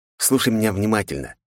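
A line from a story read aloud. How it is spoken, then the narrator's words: Fierce whisper, close up. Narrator (Russian): оскалив свои клыки, зашептал ему прямо в лицо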